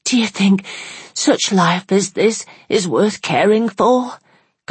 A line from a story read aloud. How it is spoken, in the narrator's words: gasped Bessie at last